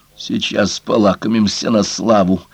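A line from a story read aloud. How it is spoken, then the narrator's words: Muttering under breath. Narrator (Russian): беспрестанно бормотала она себе под нос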